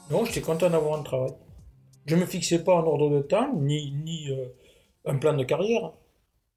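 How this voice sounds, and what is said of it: Faint southwestern French accent. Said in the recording (French): “un accent du sud-ouest quelque peu effacé”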